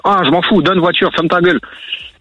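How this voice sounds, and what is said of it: Clichéd put-on foreign accent. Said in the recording (French): “je fais un peu l'accent, c'est un peu cliché”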